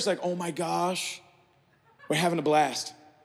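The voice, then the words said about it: Put-on American accent. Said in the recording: “So this is my best American accent.”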